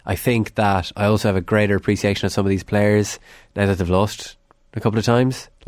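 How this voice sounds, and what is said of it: Irish Longford accent. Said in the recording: “as my accent will tell you, I'm from Longford”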